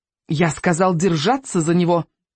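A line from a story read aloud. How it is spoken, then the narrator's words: Angry shout. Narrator (Russian): сердито закричал тощий префект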